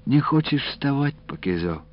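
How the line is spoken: Grandmother's gentle question. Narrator (Russian): ласково спросила бабушка

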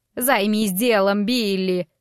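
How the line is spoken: Growled. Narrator (Russian): прорычала

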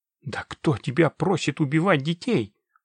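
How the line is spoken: Angry hiss. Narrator (Russian): прошипел незнакомец зло

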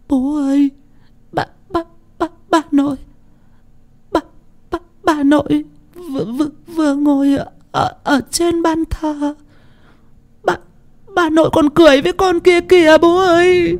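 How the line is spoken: Sobbing frightened child. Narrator (Vietnamese): Con Tình thút thít, vừa khóc vừa sợ

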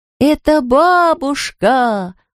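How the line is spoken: Children shouting in chorus. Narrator (Russian): хором закричали все дети

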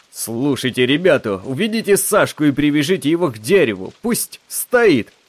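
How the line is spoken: Indignant yell. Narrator (Russian): Кто-то, должно быть, один из игроков, возмущенно завопил

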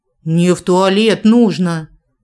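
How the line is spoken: Blunt growl. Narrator (Russian): рыкнула уже без всяких обиняков

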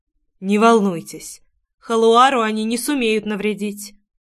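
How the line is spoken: Softer tone. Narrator (Russian): уже более мягко произнес Корн

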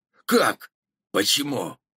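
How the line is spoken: Forced out. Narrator (Russian): выдавил из себя Джон

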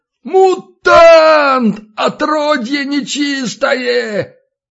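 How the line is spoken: Howling. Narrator (Russian): Зиновий взвыл

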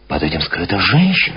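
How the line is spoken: Exclaiming. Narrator (Russian): воскликнул Парбус

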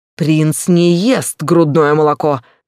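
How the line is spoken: Barked. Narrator (Russian): рявкнул Захир

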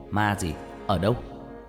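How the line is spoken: Father shouting. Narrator (Vietnamese): ba tôi quát lên

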